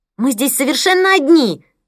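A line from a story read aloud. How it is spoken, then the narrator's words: Yelling even louder. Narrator (Russian): Завопила Мия еще громче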